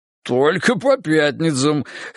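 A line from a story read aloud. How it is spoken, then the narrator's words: Laughing reply. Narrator (Russian): хохотнул в ответ Тимоха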